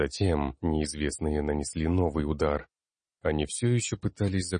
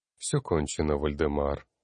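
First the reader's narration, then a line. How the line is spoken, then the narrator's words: Tired voice. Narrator (Russian): устало произнес Зарок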